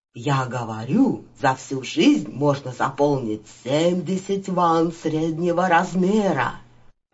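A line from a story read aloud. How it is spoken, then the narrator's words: Joyful. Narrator (Russian): Радостно вступил Иудав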